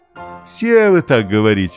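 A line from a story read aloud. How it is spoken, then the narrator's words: Father laughing. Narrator (Russian): засмеялся папа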